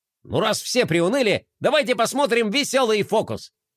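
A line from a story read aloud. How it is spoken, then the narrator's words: Exclaimed cheerfully. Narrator (Russian): воскликнул бублик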